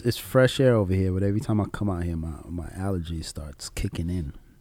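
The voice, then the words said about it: Slightly nasal, congested voice. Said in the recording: “If I sound a little nasally, people, I apologize.”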